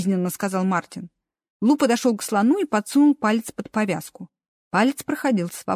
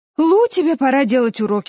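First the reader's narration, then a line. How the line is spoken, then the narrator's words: Sighing. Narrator (Russian): вздохнул Джереми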